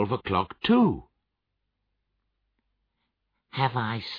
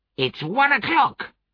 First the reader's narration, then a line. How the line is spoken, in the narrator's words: cried Scrooge delightedly